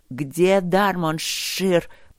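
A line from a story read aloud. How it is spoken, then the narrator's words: Hissing. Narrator (Russian): прошипел припыленный герцог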